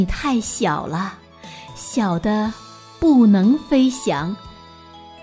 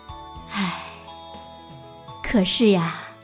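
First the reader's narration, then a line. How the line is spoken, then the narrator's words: Sighing. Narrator (Chinese): 妈妈叹息着说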